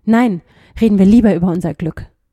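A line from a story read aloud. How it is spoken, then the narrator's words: Calling out. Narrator (German): rief er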